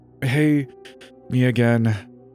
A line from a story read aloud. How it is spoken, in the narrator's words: said through gritted teeth